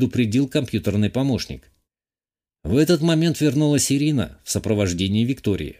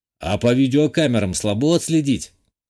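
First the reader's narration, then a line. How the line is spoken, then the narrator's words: Snort. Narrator (Russian): хмыкнул я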